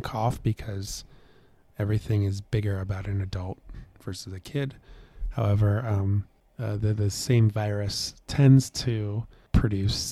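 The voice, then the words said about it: Hoarse, lower than usual voice. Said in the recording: “you and I lost our voice ... you can probably still hear it in my voice ... You're a little bit lower than usual.”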